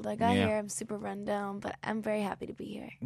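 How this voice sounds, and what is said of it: Sniffly, congested voice. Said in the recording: “A little sniffly. ... I have a little cold.”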